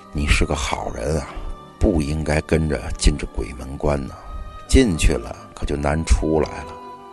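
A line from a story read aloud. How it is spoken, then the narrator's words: Sighing. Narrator (Chinese): 王半仙叹了一口气，说道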